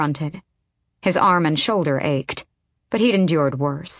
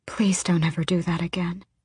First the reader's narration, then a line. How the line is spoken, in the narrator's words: she breathed